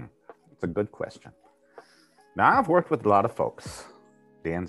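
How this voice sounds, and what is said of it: Usual voice. Nothing is said of it.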